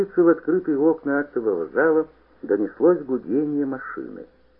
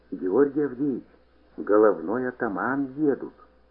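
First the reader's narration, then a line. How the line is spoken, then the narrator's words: Whisper. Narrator (Russian): прошептал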